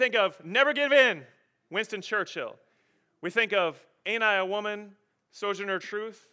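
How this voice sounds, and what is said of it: Usual voice. Nothing is said of it.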